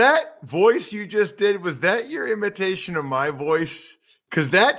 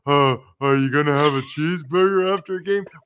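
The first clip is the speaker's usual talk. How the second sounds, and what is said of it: Slobbering mocking imitation of a voice. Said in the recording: “when people make fun of my voice, that's how they do it. It sounds like ... I'm slobbering as I'm doing it. I'm slobbering.”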